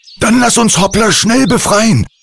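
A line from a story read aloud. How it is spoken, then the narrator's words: Calling out. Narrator (German): rief Andi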